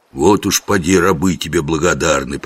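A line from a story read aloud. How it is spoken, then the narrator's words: Grumble aside. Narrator (Russian): проворчал Жихарь куда-то в сторону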